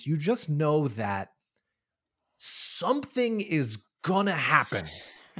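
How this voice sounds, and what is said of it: Dramatic delivery. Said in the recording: “say that dramatically”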